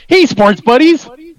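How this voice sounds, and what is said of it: Enthusiastic imitation of another person. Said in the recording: “do a Stu impression for us? ... Not bad. Really enthusiastic.”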